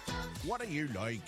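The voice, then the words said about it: Bad put-on Irish accent. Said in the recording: “it's a terrible Irish accent”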